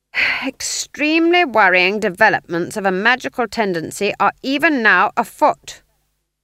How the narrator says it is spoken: said loudly

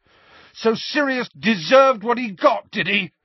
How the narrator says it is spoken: Harry yelled

